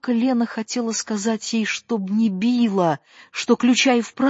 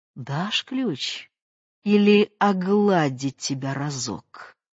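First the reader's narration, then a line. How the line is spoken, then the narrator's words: Distant, warm, intimate voice. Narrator (Russian): спросила далеким задушевным голосом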